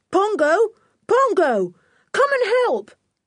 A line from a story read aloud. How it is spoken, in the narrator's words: He shouted loudly